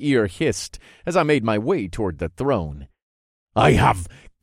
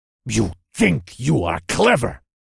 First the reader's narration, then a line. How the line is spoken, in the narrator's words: the wannabe warlord snarled